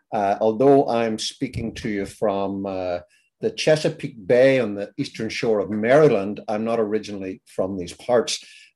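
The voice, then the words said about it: Northern Irish accent. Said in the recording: “As your listeners will be beginning to suspect from my accent ... I'm originally from Ireland. I'm from Belfast, in fact. Now, Belfast is in the north of Ireland.”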